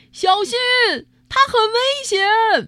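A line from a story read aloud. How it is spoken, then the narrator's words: Loud shout. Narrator (Chinese): 有人大声叫了起来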